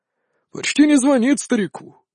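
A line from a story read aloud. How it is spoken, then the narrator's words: Pleased grumbling. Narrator (Russian): с удовольствием заворчал он на привычную тему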